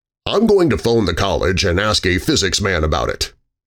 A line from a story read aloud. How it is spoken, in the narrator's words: Michaels said